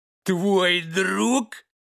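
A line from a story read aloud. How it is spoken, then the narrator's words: Dog laughing loudly. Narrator (Russian): Расхохотался старший пес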